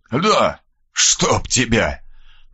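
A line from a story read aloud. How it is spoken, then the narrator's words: Hoarse rasp. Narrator (Russian): прохрипел Мальцев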